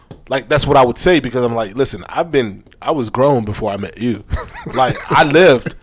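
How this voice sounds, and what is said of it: Baltimore accent. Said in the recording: “Did you hear that accent? ... My Baltimore came out”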